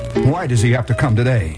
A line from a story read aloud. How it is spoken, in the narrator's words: asked finally